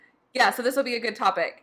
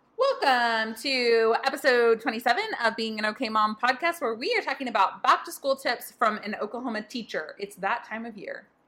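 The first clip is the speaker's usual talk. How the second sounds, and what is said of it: Newscaster-style announcing delivery. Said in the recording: “I sound like a newscaster.”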